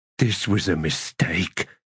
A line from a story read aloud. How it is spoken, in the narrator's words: muttered Grub